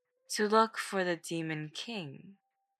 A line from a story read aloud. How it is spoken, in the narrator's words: Song Si said with a sigh